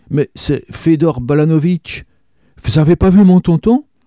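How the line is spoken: Exclaimed. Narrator (French): s'écria Zazie

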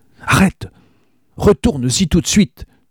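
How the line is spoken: Exclaimed. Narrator (French): s'écria Oscar, quand il se fut remis de ses émotions

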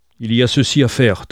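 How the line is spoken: Thundering. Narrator (French): tonna Heathcliff

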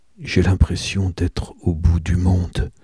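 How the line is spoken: Whispered. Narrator (French): chuchote-t-il

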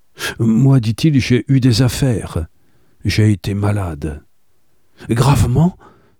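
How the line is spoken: Exclaimed. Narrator (French): s'écria-t-elle

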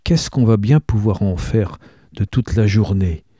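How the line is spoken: Soft question. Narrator (French): demande doucement Marceline

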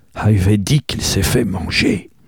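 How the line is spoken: Low voice. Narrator (French): ajouta à voix basse

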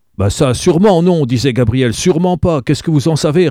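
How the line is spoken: Plain answer. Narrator (French): répondit le type

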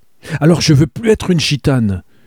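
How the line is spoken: Shouting at husband. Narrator (French): criait-elle à son mari

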